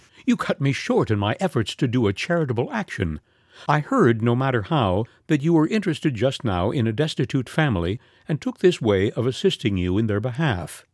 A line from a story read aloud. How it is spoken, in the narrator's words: with a laugh, saying